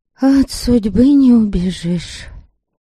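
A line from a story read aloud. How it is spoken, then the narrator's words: Sighing. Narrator (Russian): Унимила вздохнула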